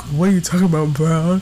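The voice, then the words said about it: Deep-voiced imitation of another person. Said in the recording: “Let me see if I can get my voice right... Because I'm talking real deep today... that was much better than my impression”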